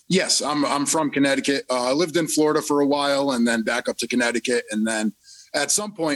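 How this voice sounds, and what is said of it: East Coast American accent. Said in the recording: “I can't help but recognize your accent. Where on the East Coast are you from? ... I would have thought for sure like you were from New Jersey or something.”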